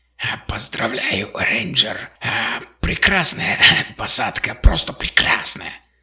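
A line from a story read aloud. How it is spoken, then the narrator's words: Hoarse mock-excited voice. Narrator (Russian): Голос у него захрипел, он тщетно пытался имитировать возбужденную туристку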